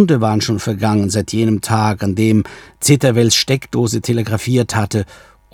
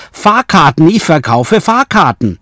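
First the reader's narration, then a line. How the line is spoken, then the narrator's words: Shouted. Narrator (German): Otto Wells schrie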